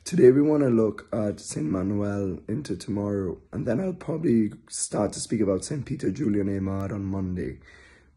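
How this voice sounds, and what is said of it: Congested voice from a head cold. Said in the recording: “excuse my voice. I have a bit of a head cold.”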